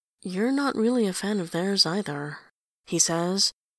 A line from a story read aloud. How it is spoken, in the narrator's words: he says, as gently as he can